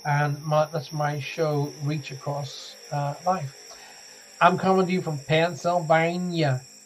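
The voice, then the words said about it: Bad put-on southern American accent. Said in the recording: “That's my southern accent coming out again ... that terrible American accent”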